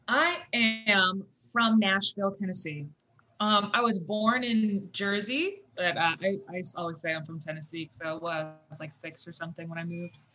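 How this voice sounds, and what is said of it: Light Southern twang. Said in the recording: “I hear the twang, but it's not heavy”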